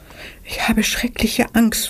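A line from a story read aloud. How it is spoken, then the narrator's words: Frightened whisper. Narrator (German): flüsterte Anna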